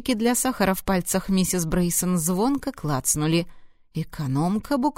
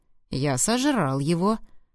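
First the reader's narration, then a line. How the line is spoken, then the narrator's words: Calm statement. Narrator (Russian): спокойно сообщил Даррен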